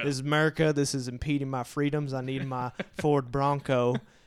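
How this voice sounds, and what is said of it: Mocking dim-witted Southern accent. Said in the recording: “when you do a stupid person, that the Southern accent is the first to be implemented”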